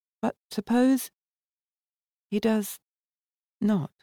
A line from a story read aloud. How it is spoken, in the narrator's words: Valda asked in a very low voice